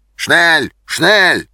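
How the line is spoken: Soldiers shouting. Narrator (Russian): кричали немцы

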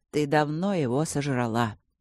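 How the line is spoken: Quiet admission. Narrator (Russian): тихо признал Натаниэль

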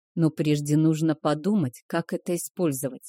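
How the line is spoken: Plain. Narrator (Russian): сказал Кейхер

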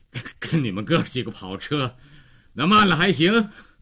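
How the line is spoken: Panting reply. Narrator (Chinese): 高个子喘着气儿回答

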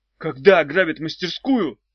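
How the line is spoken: Shouting. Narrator (Russian): крикнул он

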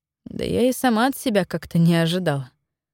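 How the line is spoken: Sighing. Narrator (Russian): вздохнула я

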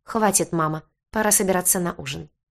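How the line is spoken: Cold. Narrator (Russian): холодно проговорил он

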